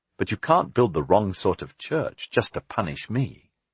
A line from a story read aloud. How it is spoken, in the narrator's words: Jack said miserably